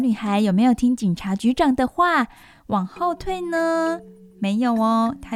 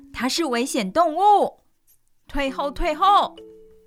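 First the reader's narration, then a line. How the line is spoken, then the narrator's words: Roaring. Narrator (Chinese): 警察局长大吼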